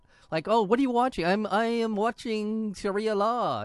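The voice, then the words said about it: Put-on Middle Eastern accent. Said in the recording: “It was a vague notion of what a Middle Eastern accent might have been.”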